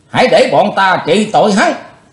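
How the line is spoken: Shout from behind. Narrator (Vietnamese): từ phía sau đã có tiếng quát lên

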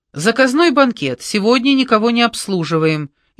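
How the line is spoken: Shouting. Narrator (Russian): Кручина сразу им крикнул

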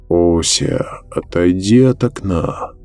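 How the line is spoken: Old man's creaky voice. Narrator (Russian): проскрипел старый Цхак

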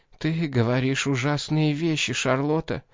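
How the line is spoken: Hoarse broken whisper. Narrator (Russian): прошептала она хриплым, прерывистым голосом

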